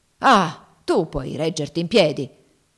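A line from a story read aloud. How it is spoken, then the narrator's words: Grumbled. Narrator (Italian): brontolò Legree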